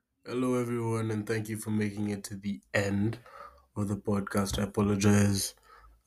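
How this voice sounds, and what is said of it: Weak voice. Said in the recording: “My voice is a bit weak. I've been having a cold recently”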